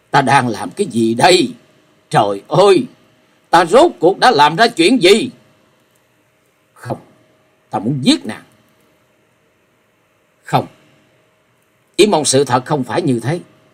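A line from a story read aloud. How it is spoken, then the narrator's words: Frantic yelling. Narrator (Vietnamese): Hắn cuồng loạn hét lớn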